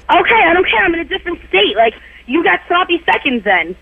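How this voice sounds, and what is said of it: New York accent. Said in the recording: “that New York accent that you have”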